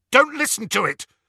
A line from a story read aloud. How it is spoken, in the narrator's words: Harry said harshly